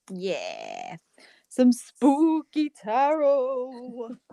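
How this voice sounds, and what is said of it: Spooky voice. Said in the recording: “You love my spooky voice”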